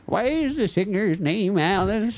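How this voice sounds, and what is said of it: Old lady voice. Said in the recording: “That's a good old lady impression.”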